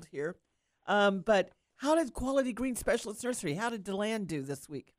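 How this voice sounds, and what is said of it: Congested voice from a cold. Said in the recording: “I've got a little bit of a cold”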